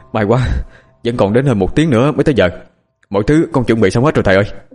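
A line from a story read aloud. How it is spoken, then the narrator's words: Panting, breathless. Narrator (Vietnamese): vừa thở hổn hển vừa nói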